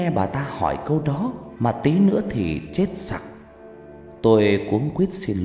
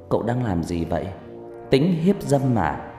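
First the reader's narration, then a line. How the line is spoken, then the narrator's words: Suspicious woman. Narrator (Vietnamese): Người đàn bà hỏi bằng giọng đa nghi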